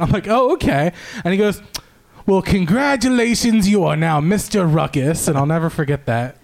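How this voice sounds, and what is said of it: Usual voice. Nothing is said of it.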